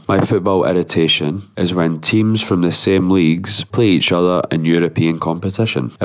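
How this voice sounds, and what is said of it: Voice sounds worse for wear. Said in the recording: “forgive my voice. I was at a wedding last night and I'm a bit worse for wear.”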